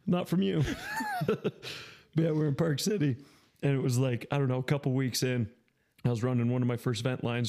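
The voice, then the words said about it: Hoarse, failing voice. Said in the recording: “my voice is going out. I was yelling today. ... No, I can't talk.”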